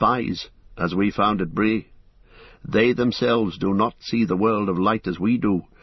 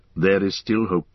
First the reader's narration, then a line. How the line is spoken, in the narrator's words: he said